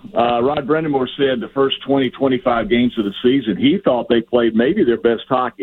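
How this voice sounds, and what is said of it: Southern American accent. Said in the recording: “a guy with a southern accent talk about hockey ... His southern accent, I can't take it”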